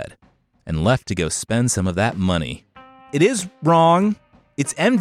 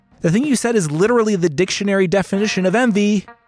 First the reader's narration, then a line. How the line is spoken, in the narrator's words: Ahmet called out after her